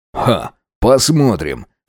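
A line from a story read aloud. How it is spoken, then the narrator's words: Skeptical snort. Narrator (Russian): хмыкнул Макс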